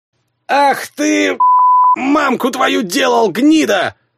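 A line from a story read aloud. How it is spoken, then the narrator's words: Yelling. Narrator (Russian): заорал сир Джейми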